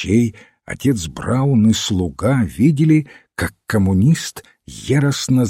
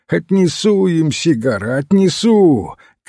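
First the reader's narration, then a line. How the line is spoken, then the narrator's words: Shout. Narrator (Russian): крикнул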